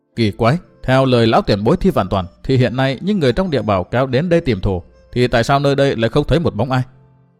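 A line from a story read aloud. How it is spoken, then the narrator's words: Muttered. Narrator (Vietnamese): Chàng lầm bầm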